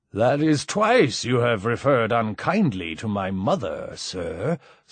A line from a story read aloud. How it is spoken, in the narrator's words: slurred Mike